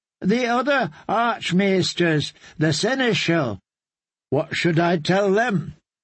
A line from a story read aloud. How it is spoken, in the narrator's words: Sam sputtered